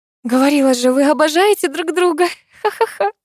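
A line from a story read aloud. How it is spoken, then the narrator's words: Laughing. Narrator (Russian): Засмеялась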